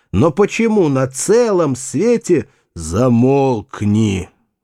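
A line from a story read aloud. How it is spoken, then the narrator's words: Growled. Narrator (Russian): рыкнул Вульф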